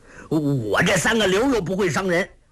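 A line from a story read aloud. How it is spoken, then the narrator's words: Angry. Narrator (Chinese): 侯通海怒道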